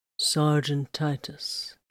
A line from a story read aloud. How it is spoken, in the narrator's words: he said in his calm, deep voice